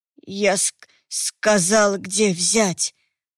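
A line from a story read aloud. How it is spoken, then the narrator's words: Strangled hoarse wheeze. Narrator (Russian): Просипел темный, словно что-то сдавливало ему горло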